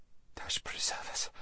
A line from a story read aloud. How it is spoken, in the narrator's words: whispered Lazareline